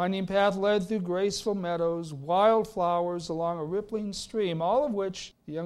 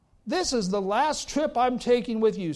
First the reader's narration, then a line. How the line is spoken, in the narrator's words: snapped his son